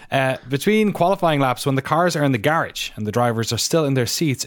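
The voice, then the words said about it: Irish accent. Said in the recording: “my weird Irish accent”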